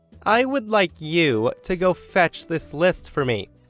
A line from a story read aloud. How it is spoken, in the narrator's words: With a wide grin on her face, the woman spoke in a condescending tone and says